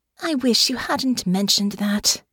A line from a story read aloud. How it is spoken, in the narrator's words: Honor sighed